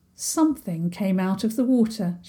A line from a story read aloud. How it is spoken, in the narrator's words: said